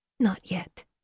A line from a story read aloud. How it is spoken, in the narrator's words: Lily whispered